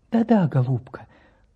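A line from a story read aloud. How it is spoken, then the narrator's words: Tender, then quieter. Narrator (Russian): Ласково отозвался профессор и продолжал потише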